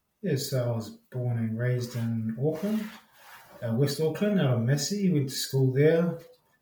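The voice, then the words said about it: Accent clearly not Australian. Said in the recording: “your accent is very clearly not Australian”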